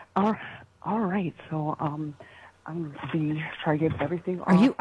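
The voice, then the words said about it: Speaking very quietly. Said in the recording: “you're talking very quiet”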